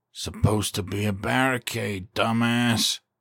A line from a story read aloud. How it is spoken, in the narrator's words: he muttered